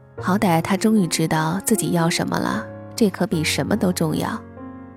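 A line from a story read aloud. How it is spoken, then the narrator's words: Laughing. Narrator (Chinese): 王爷笑道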